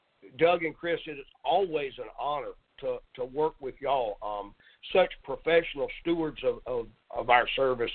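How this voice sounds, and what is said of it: Southern American accent. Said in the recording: “I talk with a Southern accent”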